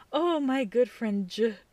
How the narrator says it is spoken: I sighed and said

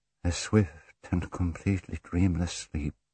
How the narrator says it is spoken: murmured

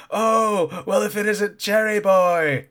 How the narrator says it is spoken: Fujiyama shouting

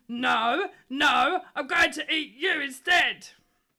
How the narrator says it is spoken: But the troll hollered

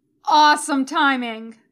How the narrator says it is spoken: Tony yells, and she's surprised to find that his voice is coming from upstairs

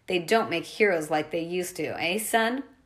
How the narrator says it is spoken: The monster growled

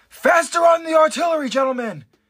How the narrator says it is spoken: Commander Irvin yells out

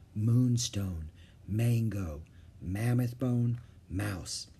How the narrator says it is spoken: he whispered

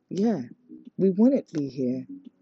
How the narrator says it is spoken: Sunny said in a low voice, so Chukwu wouldn't hear

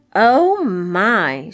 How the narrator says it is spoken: she exclaimed

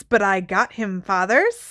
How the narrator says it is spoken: cackled Morphin

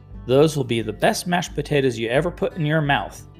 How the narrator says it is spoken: she snapped

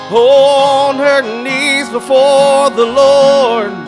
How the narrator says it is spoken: his little mama cried

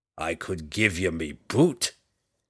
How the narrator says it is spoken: Bruner growled back

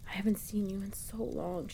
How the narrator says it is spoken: she whispers in my ear

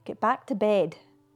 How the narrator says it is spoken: he said unsteadily

